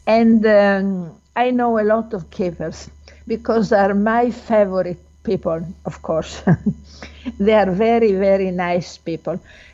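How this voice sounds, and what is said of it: Strong non-native English accent. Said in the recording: “I guess my accent is not very good, I'm sorry.”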